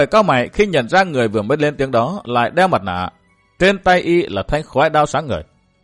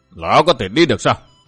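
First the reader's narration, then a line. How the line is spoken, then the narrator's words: Cold voice. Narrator (Vietnamese): giọng nói lạnh lùng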